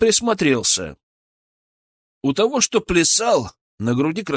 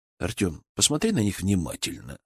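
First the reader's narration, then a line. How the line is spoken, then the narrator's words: Calm. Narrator (Russian): сказал я спокойно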